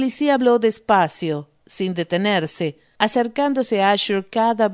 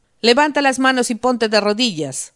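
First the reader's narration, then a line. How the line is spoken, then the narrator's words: Shout. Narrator (Spanish): gritó Asher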